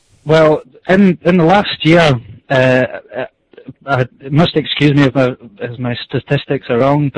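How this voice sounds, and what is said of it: Scottish brogue. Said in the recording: “I sure love hearing me a good brogue”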